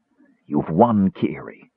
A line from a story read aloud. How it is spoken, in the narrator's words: Caramon whispered